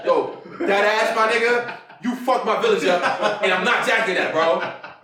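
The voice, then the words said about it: Put-on New York accent. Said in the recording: “having like New York accents”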